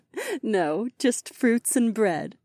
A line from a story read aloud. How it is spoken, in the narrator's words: Aliona giggled